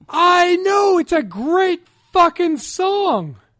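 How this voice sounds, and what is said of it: Yelling loudly. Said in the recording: “Sorry, I'm yelling.”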